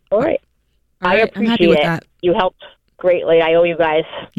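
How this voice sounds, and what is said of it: Rhode Island accent. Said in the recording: “I love that Rhode Island accent ... I like that Rhode Island accent”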